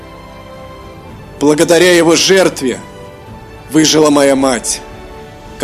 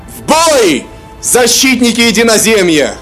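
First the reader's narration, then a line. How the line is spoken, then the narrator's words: Shouting. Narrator (Russian): прокричал хранитель добра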